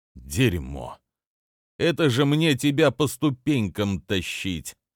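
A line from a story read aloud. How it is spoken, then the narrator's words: Tired man speaking. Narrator (Russian): устало произнес мужик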